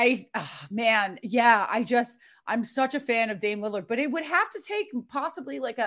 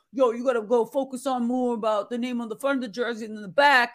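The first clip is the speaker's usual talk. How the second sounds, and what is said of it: Poor imitation of another person's voice. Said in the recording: “terrible Dame impression. ... not good at all.”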